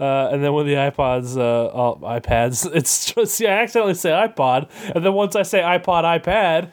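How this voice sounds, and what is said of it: Usual voice. Nothing is said of it.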